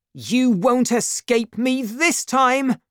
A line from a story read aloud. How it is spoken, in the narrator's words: shouted